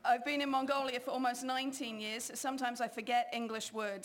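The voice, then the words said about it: English accent. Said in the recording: “I grew up in England. You might be able to tell from the accent.”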